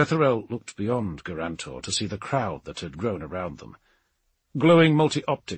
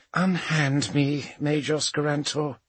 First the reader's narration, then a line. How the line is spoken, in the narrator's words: sighed